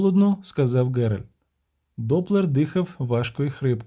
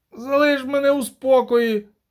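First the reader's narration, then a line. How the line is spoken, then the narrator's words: Groan. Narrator (Ukrainian): простогнав він нарешті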